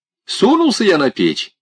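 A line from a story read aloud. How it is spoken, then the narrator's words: Cheerful reply. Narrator (Russian): весело ответил отец Василий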